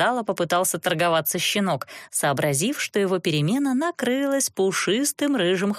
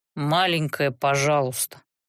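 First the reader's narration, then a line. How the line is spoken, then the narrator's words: Grumbling. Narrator (Russian): проворчал Рест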